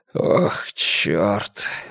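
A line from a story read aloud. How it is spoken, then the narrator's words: Breathed out. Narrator (Russian): выдохнул он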